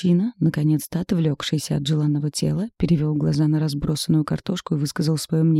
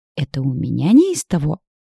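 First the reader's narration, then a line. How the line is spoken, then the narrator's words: Indignant hoarse young woman. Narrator (Russian): Возмущенно прохрипела девушка, зверея, что осталась без ужина, так как весь день не ела, и еще придется убирать всю кухню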